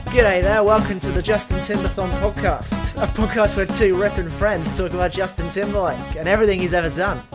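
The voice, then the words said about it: Fairly good put-on accent. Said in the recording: “Genuinely, that's not a bad accent, I think. ... It wasn't bad.”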